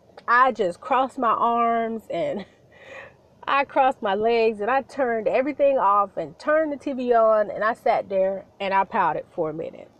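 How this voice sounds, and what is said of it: Congested, stuffy voice. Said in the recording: “I think you can hear it in my voice ... I've been dealing with a little bit of congestion here lately.”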